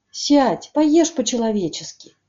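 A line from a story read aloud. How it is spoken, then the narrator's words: Stunned offer. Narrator (Russian): предложил он, обалдевший Адуси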